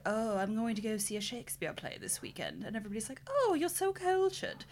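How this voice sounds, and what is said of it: Clumsy put-on posh accent. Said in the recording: “What kind of backwoods Downton Abbey accent was that ... I'm not good at this”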